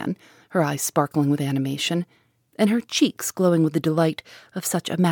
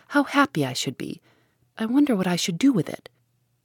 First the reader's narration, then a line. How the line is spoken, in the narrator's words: cried Margaret